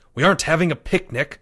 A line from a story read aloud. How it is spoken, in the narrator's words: Leo snapped